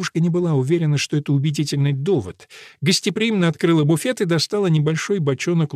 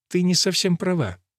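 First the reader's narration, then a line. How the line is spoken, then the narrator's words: Warm, smiling. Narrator (Russian): ласково улыбнулась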